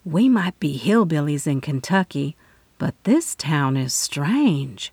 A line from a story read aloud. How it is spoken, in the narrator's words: she whispered between us